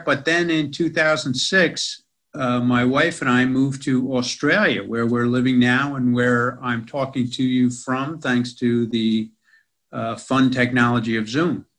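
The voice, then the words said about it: American accent, New York. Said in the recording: “as you can tell from my accent, in America. ... Most of that in New York City.”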